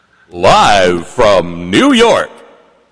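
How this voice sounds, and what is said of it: Announcer voice. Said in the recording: “announcer voice”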